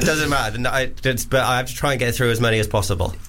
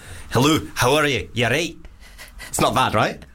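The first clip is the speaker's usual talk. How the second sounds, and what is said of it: Put-on Scottish accent. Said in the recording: “Scottish.”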